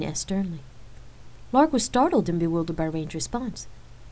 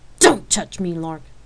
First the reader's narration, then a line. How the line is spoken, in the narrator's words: Rain snapped angrily